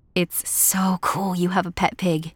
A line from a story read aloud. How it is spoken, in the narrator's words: Anne sighed